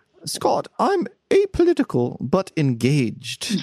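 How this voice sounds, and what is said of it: British impression sounding like the Queen. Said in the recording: “you sound like the Queen, you know, apparently ... All my British impersonations sound like the Queen”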